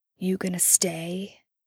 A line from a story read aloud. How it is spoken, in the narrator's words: Dean breathes, almost a whisper